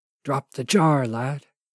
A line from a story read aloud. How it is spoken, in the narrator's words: the Forest Spirit whispered again